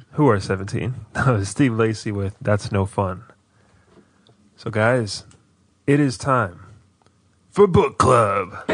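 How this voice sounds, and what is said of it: Raspy voice. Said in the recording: “Why is my voice so raspy?”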